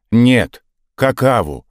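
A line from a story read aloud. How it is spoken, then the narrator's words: Angry group snap. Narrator (Russian): зло огрызнулись казаки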